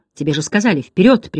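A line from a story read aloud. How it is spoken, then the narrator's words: Sharp shout. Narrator (Russian): прикрикнул Бастиан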